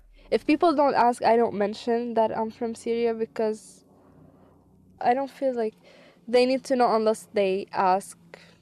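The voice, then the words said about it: Non-native English accent. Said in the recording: “Some people just recognize from my accent that I'm not from here ... you have an accent.”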